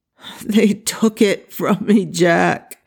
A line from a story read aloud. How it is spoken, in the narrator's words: he moaned, his voice hoarse from screaming